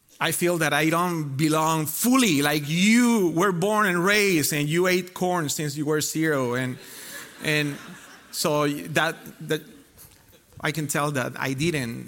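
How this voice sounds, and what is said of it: Spanish-accented English. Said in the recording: “So that's why the accent”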